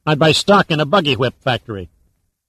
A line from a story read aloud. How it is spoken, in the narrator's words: Sandecker snorted